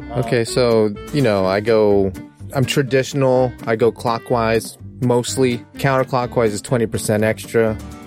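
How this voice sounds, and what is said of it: Very deep voice. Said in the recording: “for a lady, you have a very like deep voice”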